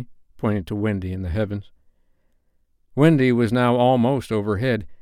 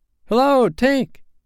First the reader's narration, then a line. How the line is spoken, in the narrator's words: cried the wondering boys